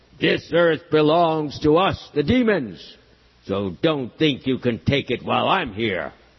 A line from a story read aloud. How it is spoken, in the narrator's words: looked sternly at Lord Varaha and shouted